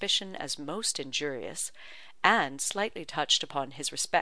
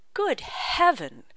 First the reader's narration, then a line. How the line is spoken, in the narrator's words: cried Mr